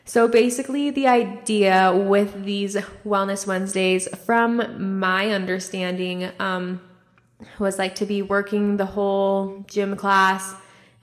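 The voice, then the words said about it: Voice sounds a little off. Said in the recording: “I don't know if you can like hear it in my voice, but I've just been having like super bad allergies ... So sorry if my voice sounds a little off.”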